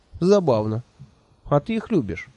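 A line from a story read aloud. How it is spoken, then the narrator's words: Snide question. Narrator (Russian): ехидно поинтересовался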